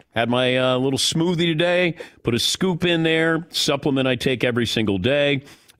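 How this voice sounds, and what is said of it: Slightly sick-sounding voice. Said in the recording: “I may have COVID in my voice ... you can still kind of hear it in the voice”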